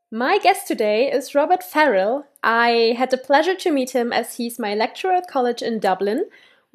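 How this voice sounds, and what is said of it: German-accented English. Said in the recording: “sorry for the German accent”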